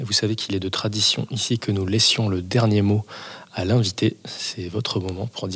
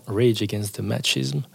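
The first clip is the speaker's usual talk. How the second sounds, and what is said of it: Exaggerated English accent. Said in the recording (French): “avec mon meilleur accent”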